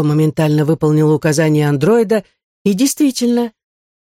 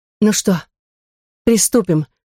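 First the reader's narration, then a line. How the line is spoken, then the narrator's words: Breathy exhale. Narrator (Russian): выдохнула Фьора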